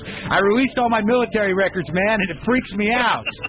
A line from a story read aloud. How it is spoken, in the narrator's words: He yells